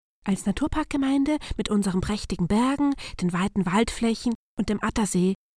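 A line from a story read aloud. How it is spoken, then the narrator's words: Small voices prompting in whispers. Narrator (German): wisperten die kleinen Minister vor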